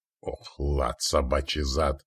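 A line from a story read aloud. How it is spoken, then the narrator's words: Through gritted teeth. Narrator (Russian): Процедил сквозь зубы Стоян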